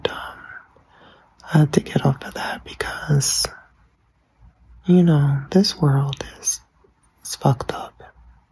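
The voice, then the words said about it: Whispering. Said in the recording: “I'm sorry I'm whispering right now, but I'm in a bed.”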